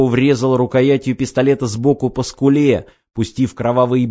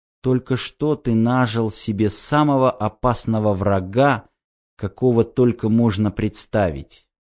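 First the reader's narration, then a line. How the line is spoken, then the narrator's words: Quiet. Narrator (Russian): тихо сказала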